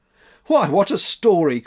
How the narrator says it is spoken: cried Max

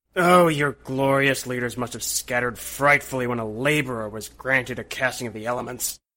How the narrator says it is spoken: he roared

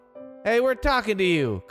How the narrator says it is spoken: Carl shouted

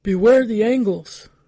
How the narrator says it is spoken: Sahagun shouted

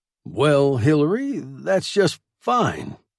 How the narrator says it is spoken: stammered

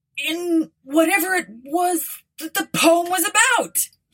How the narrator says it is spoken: he yelled out of the corner of his mouth

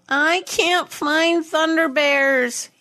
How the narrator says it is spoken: whined

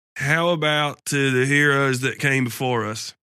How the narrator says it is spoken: slurs

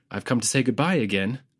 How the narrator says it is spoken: he froze and, trying to be funny, said

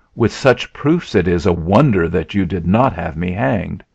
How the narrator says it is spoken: he cried

